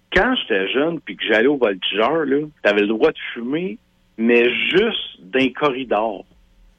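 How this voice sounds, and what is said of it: Regional Quebec French accent. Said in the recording (French): “je viens de Drummondville ... Clairement, hein? L'accent.”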